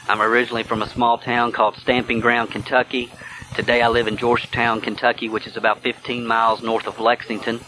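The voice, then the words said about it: Southern American accent. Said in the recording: “Yes, it is a Southern accent that you detect. ... if you can get past the accent”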